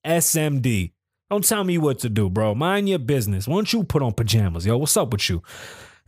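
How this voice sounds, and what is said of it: Exaggerated Bronx accent. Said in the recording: “in my dirtiest Bronx voice”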